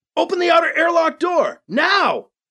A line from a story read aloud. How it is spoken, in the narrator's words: He yelled